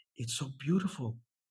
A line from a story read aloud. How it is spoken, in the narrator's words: she breathed